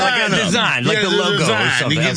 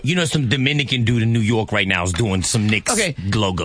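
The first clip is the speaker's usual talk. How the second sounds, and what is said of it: Put-on Dominican New Yorker accent. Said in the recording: “As soon as he said New York, he tried to put an accent on it. ... That's my Dominican New Yorker.”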